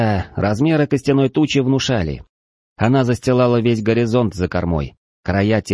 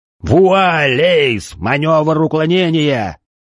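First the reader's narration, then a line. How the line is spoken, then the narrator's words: Yelling. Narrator (Russian): заорал Адам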